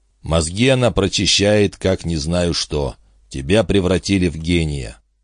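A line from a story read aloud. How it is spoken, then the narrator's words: Muttered under breath. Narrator (Russian): пробормотал он тебе под нос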